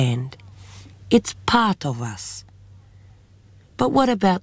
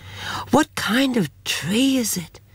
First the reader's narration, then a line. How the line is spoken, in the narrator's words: said Kara in a whisper